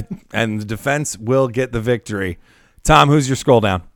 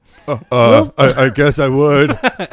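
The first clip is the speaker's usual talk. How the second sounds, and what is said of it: Imitates another person's voice. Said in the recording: “That's my Brandon Dassey impression,”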